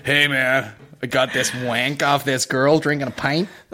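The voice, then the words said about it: Put-on American accent. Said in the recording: “How much can you not say wank in an American accent?”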